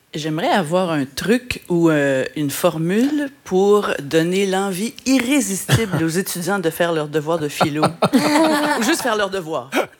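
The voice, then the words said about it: Slight Québécois French accent. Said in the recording (French): “Petit accent québécois”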